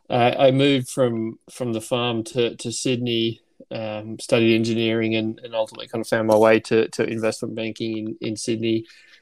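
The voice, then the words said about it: Slight Australian accent. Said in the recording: “might pick up a slight accent over the phone. ... Originally from Australia”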